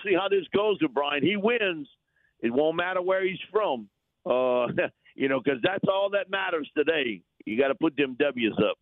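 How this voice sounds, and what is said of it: Distinctive regional accent. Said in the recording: “I just love the accent. Just love it.”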